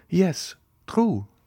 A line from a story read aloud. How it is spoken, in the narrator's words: replied Madame de Villefort, somewhat uneasily